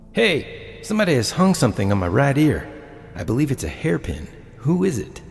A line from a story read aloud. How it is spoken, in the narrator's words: One of the men exclaimed